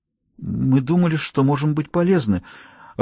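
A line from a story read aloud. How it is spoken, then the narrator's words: Timid remark. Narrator (Russian): робко заметила Берта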